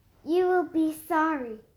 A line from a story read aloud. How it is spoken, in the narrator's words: said the witch